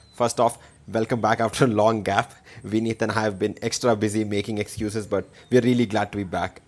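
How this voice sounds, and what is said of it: Indian accent. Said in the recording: “your favorite NBA podcast in an Indian accent.”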